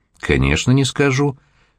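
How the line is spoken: Calm reply. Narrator (Russian): спокойно ответила тетя Фая

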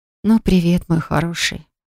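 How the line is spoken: Breathy. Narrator (Russian): Выдохнула я

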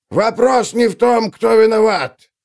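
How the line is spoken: Barely audible yell. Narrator (Russian): Заорал мельник, которого было почти не слышно

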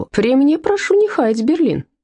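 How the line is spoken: Friendly laugh. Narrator (Russian): дружелюбно рассмеялся Том Тейлор

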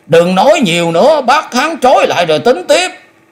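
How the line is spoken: Loud shout. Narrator (Vietnamese): Hạ Phong cũng quát lớn

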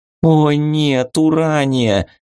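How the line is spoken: Groaning. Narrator (Russian): застонала Вика

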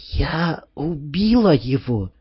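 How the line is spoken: Said quietly. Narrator (Russian): подняла потрясенное лицо, тихо сказала

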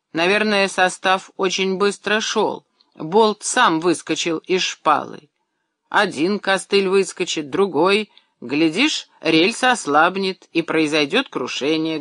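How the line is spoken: Plain. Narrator (Russian): говорит Андрей Иванович

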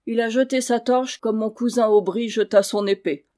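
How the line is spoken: Muffled grumble. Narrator (French): grommela le chevalier sous sa visière

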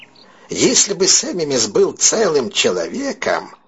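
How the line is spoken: Creaky, offended voice. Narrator (Russian): проскрипел Сэмми Месс, и при этих словах на лице его вырисовывалась обида

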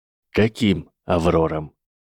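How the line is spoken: Even voice. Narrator (Russian): сказал Северус ровным голосом

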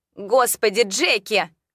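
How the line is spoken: Yell from kitchen. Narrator (Russian): заорала из кухни Клара

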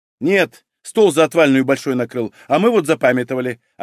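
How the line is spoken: Snapping woman. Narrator (Russian): огрызнулась женщина

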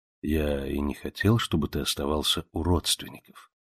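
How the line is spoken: Soft male voice. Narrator (Russian): мягко сказал Монтанелли

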